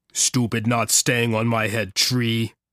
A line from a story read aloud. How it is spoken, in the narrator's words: Squonk grumbled